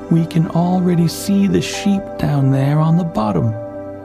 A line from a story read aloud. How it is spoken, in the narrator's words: the peasants cried out